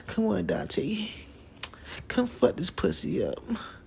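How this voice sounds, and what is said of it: Little sexy voice. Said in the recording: “do that little voice thing, little little sexy voice.”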